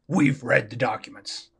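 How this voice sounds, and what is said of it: Alex Jones impression. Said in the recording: “That's my Alex Jones impression.”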